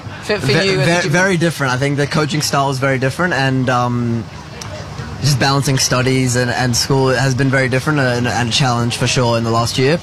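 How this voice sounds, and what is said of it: Strong accent. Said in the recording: “that accent's staying strong, mate”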